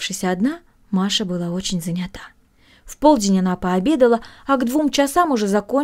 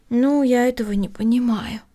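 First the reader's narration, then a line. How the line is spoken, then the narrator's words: Sighing. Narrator (Russian): вздохнула Эми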